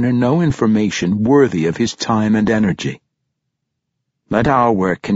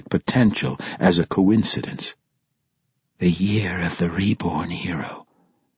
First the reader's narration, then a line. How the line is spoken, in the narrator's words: he whispered